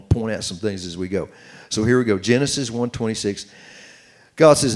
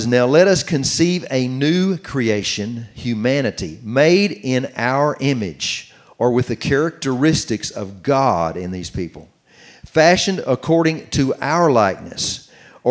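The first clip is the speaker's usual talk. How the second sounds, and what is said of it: Slow, deliberate reading. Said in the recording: “read this slowly”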